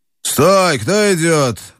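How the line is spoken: Rough voice shouting. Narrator (Russian): крикнул грубый голос из тумана

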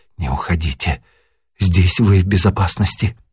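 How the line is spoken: Barely audible whisper. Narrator (Russian): чуть слышно шепнула

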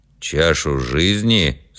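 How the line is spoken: Stern interruption. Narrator (Russian): строго перебил отец Кир

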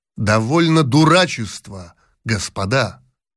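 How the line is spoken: Stern. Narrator (Russian): сказал строго Палин

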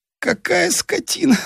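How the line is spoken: Groaning. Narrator (Russian): стонал он

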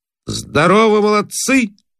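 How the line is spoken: Loud greeting. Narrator (Russian): особенно громко приветствует

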